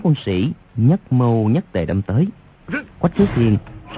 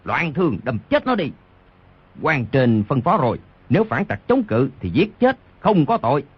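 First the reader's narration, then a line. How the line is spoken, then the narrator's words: Furious roar in pain. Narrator (Vietnamese): Đoàn Thiên Đức trúng đòn đau quá, vô cùng tức giận gầm lên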